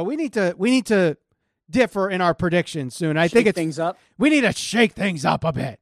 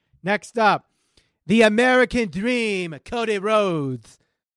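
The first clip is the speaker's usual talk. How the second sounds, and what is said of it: Poor imitation of another person's voice. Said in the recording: “my Dusty Rhodes impression... oh God, that was horrible... That was horrible... I could do much better.”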